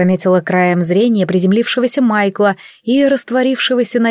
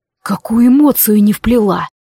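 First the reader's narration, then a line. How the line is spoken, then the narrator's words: Hoarse question. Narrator (Russian): осипшим голосом спросил маг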